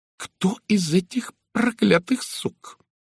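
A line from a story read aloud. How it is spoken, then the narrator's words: Vicious hiss. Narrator (Russian): Злобно прошипела она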